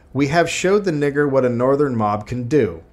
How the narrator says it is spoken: Snyder had shouted

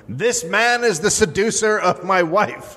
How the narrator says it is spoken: Edwin beat Willis with a gutta-percha whip in Washington Square while yelling

